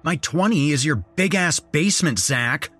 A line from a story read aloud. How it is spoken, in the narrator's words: snapped